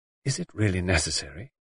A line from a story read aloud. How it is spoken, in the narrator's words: She asked in a low voice